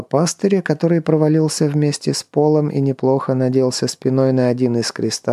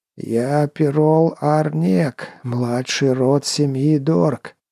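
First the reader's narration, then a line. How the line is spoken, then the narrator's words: Hoarse, extremely haughty. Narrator (Russian): прохрипел он, при этом произнес все с максимумом надменности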